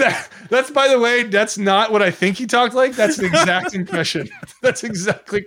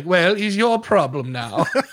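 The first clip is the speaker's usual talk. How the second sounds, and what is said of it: Posh royal English accent. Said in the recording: “good impression of like a posh English accent... There's like a very particular royal English accent... That's actually very good”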